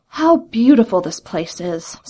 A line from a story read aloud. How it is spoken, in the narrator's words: sighed Joringel